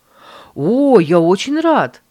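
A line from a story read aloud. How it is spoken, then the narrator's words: Exclamation. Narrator (Russian): воскликнул Майкл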